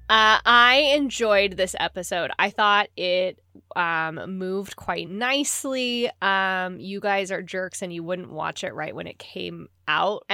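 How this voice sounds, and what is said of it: Congested voice with sniffles. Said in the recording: “I have a little bit of a cold, just so if anyone hears, you know, sniffles”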